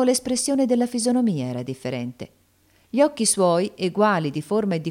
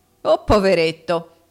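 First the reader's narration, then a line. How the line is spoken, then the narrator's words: Mocking exclamation. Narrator (Italian): esclamò il giovane fissandolo con uno sguardo beffardo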